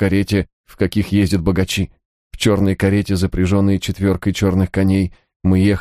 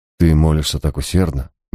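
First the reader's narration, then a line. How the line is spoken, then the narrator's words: Soft. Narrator (Russian): мягко проговорил Гай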